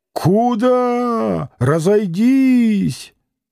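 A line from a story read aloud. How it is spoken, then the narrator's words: Angry, pleading shout. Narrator (Russian): Пристав закричал и гневно, и умоляюще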